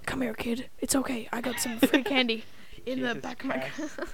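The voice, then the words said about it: Imitates a creepy predator character. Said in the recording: “Do you want to hear my impression of a Predator?”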